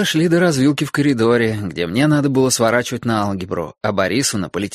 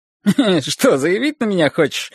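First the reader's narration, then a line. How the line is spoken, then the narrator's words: Laughing. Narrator (Russian): рассмеялся Борис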